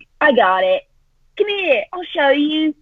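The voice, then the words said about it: Put-on Cockney accent. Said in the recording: “I have a Cockney accent”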